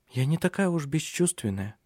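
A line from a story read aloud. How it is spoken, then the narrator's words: Whisper. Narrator (Russian): прошептала она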